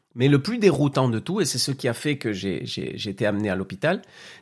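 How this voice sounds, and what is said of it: Strange accent, Spanish origin. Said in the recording (French): “je suis d'origine espagnole ... d'où cet accent bizarre que vous entendez”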